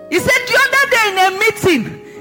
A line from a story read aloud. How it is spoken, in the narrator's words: she shouted at me